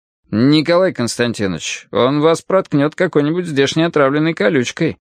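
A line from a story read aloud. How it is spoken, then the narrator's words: Plain. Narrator (Russian): сказал мичман Сизаров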